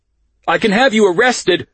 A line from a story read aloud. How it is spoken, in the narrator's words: Park yells at me